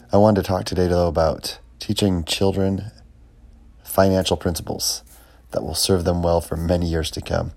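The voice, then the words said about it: Gravelly, rough voice. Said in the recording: “My voice is a little bit gravelly today. I'm recovering from being under the weather a little bit.”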